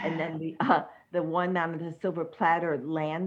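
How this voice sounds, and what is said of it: Usual voice. Nothing is said of it.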